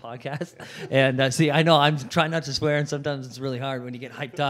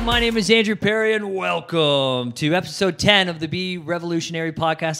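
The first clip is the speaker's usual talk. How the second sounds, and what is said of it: Put-on radio announcer voice. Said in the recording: “I try to get like my radio voice on ... That wasn't bad.”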